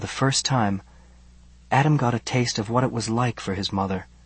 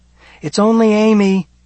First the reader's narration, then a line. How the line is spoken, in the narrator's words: Adam called out to his mother, wanting to reassure her that everything was all right